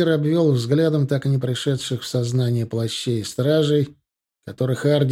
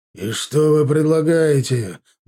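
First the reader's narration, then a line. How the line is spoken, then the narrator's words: Growling. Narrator (Russian): буквально зарычал Милар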